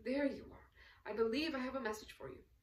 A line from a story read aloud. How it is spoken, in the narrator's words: exclaimed Arkady in passing